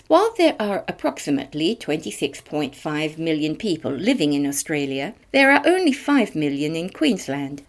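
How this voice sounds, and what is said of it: British accent. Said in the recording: “Those of you who have picked up on my accent will have recognised that I am one of them ... 800,000 plus were born in Britain”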